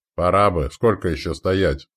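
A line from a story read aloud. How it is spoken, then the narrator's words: Boatman's grumble. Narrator (Russian): проворчал ладейщик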